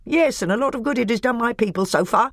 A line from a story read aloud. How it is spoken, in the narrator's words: snapped Nikobrick